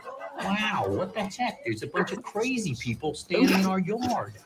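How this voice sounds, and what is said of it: Imitates another person's voice. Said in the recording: “Wow, that's a really good impression.”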